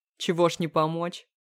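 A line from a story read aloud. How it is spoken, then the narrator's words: Snorting. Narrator (Russian): снова хмыкнул Крест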